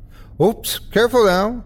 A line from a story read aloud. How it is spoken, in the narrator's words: laughing loudly